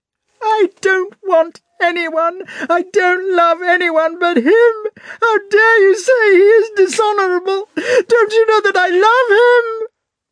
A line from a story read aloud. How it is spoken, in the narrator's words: screamed Natasha